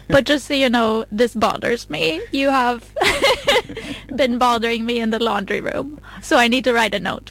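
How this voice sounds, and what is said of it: Put-on Swedish accent. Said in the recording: “Swedish accent tone”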